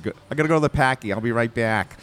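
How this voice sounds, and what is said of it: Exaggerated Boston accent. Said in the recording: “That was a good Boston accent for you.”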